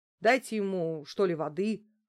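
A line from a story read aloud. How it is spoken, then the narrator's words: Irritated, investigator. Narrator (Russian): раздраженно проговорил следователь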